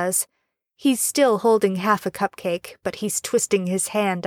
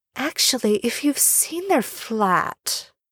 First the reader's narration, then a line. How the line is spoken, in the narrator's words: Draco murmurs